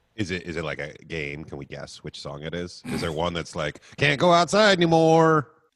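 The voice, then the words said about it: Imitates another person's voice. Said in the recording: “That was my you impersonation”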